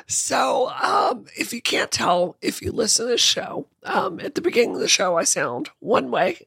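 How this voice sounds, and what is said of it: Hoarse, raspy voice. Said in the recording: “current holder of the world's hoarsest voice ... I sound like a golden girl heading into the light today ... I sound really raspy”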